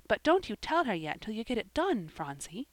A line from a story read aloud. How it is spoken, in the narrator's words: whispered Polly